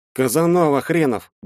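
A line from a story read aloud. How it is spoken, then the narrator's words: Gruff mutter. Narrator (Russian): буркнул Шталин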